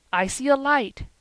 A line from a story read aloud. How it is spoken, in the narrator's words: he cried